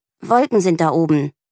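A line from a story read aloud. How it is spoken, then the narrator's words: Growl. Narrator (German): knurrt Mieke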